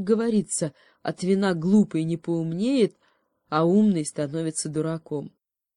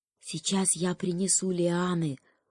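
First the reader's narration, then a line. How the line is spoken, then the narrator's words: Whisper. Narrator (Russian): шепнул заяц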